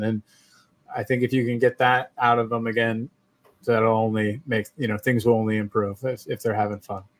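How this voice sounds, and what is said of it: Strong American accent. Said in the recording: “You have a really strong American accent.”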